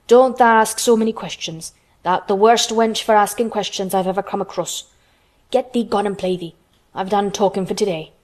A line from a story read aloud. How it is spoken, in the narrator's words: he said sharply